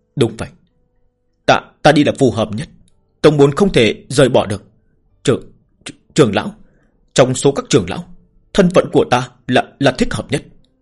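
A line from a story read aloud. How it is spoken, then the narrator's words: Stammering. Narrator (Vietnamese): Ngụy Đa lắp bắp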